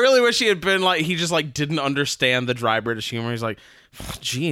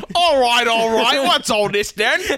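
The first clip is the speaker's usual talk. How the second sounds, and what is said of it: Put-on Cockney accent. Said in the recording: “Suddenly has a Cockney accent instead.”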